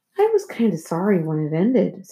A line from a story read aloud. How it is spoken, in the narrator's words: said Jason